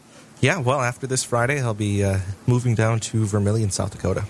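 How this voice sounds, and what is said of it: Polished radio voice. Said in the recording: “fantastic radio voice”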